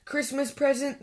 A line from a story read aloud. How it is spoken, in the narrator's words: snorted Grumpy Badger